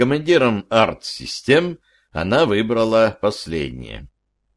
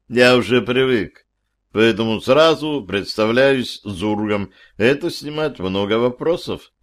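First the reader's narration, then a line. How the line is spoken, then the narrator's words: Calm agreement. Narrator (Russian): спокойно согласился я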